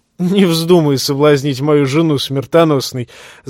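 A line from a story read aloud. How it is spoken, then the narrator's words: Laughing. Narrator (Russian): засмеялся Дарион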